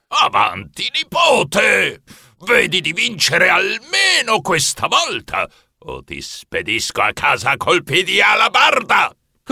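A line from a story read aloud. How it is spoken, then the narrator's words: Grandfather's booming voice. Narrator (Italian): Nonno Torquato tuonò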